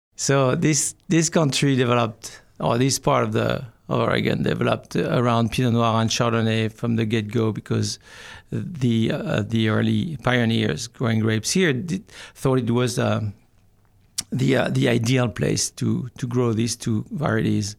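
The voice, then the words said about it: Light French accent. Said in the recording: “the largest difference is the accent, right? ... your accent is not thick enough to where we have to get a translator”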